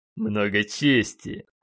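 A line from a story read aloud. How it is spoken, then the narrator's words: Two voices snorting together. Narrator (Russian): одинаково фыркнули сразу два клона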